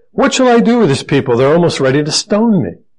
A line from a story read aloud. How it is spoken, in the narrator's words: he cried out to the Lord saying